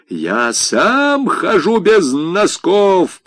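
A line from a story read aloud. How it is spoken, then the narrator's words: Thundering. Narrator (Russian): прогремел князь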